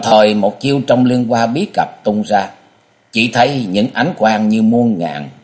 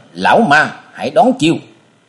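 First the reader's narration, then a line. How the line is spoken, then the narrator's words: Shout. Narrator (Vietnamese): chàng hét lên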